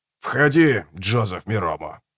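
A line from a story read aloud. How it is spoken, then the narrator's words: Hoarse voice. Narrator (Russian): произнес хриплый голос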